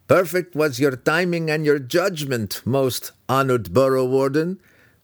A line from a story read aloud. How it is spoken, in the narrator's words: Brickers said to his peer when he managed to stop laughing